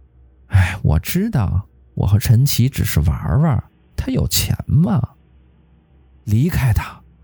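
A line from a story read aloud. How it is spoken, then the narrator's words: Laughing. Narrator (Chinese): 这个女人笑了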